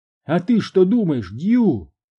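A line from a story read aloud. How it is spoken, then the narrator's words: Shouted. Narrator (Russian): крикнула Маргарет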